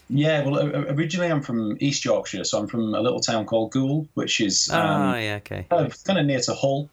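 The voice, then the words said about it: Generic Yorkshire English accent. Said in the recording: “I've just got a generic Yorkshire accent now ... I was going to say Yorkshire, and I was actually going to say Leeds”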